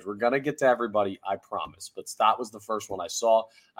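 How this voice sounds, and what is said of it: Hoarse, sick-sounding voice. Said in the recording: “my voice is a little bit shoddy today. I'm fighting off a cold right now ... voice ain't 100%”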